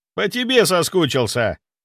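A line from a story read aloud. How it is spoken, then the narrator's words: Snorting. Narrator (Russian): хмыкнул Серега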